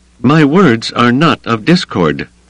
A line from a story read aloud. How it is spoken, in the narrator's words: she said, raising her voice loud enough for the whole crowd to hear